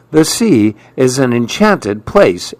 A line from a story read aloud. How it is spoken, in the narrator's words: exclaimed Maribel